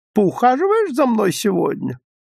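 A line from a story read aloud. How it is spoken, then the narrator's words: High squeaky voice. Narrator (Russian): она спрашивала высоким, пискливым голосом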